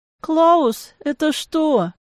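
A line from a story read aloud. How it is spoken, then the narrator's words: Weak-voiced question. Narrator (Russian): Слабым голосом поинтересовалась я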